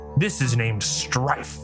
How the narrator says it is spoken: he snarled

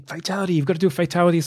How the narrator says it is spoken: Liu, Cage, Sonya, and Raiden off on the sideline sort of yelling

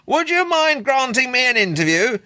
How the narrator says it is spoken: shouted Lewin, glaring up at the eye

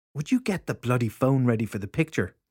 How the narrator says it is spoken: the mother snapped

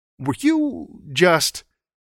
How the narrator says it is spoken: he stammered

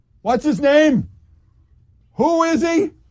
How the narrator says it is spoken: Rudy Giuliani said loudly like this

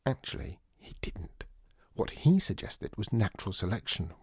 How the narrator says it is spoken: whispered John

